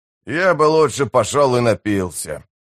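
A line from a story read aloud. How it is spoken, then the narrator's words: Grumbling. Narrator (Russian): проворчал сапер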